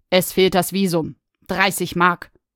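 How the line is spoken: Stern. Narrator (German): sagte streng

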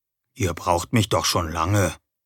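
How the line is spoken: Quiet answer. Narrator (German): antwortete ich leise

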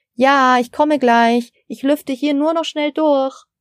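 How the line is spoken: Calling toward kitchen. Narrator (German): rief Frau Steiner in Richtung Küche

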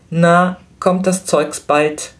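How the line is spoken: Shout. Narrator (German): rief Flametti zum Schalter

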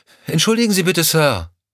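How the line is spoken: Calling after someone. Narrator (German): rief Lorna ihm hinterher

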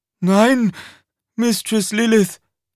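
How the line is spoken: Panting. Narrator (German): keuchte er

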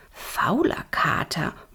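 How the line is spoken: Murmured. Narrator (German): murmelte Flora

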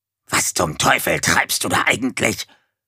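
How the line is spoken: Hissing dog. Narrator (German): zischte der Hund

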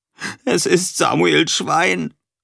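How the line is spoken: Sobbing. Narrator (German): schluchzte Erik

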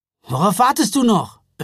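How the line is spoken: Calling out. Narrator (German): rief Jonas

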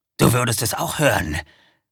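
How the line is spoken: Werewolf growling. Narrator (German): knurrte der Werwolf

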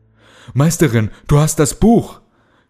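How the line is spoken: Shouting. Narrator (German): schrie Kalle

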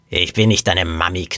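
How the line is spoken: Sleepy growl. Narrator (German): knurrte die Frau verschlafen

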